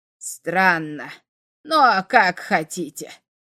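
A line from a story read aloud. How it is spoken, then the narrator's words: Old man's grumble. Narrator (Russian): проворчал старичок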